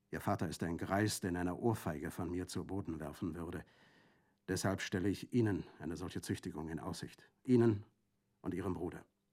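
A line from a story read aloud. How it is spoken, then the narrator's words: Quiet speech. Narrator (German): sagte leise zu ihm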